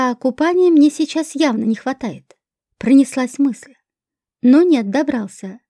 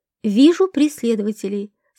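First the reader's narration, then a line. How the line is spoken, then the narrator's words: Calm warning. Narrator (Russian): спокойно предупредил меня Хрун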